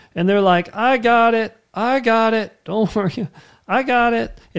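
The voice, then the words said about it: Imitates another person's voice. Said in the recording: “One of my favorite Seinfeld bits... It's funny when he does it. I don't have a very good Seinfeld impression.”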